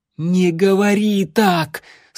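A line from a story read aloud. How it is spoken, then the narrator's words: Near-shouting, holding back tears. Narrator (Russian): срываясь на крик, запротестовала вампирша, еле сдерживая, чтобы не разрыдаться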